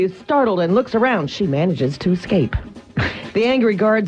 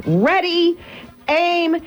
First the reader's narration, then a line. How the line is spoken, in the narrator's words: the executioner shouts